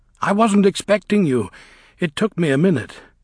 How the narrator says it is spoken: he said, panting

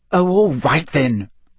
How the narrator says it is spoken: Hermione snapped

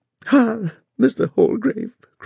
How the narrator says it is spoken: cried she, as soon as she could speak

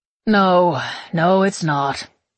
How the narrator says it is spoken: he sighs, still smiling

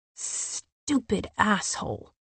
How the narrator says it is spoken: Cassian snarled

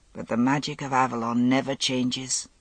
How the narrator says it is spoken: he murmured

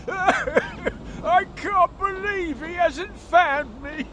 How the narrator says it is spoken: sobbed the monster

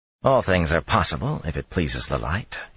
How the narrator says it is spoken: he murmured

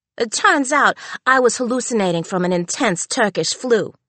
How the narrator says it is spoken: laughed Danny

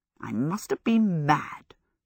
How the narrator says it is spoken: she muttered

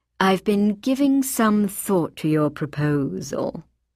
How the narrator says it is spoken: Phyllis Wyvern fairly purred as she replied

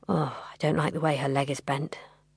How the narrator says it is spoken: Dad said quietly

